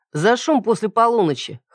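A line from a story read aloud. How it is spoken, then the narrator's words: Young man snorting. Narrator (Russian): хмыкнул парень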